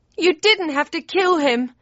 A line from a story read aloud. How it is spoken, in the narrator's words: he wailed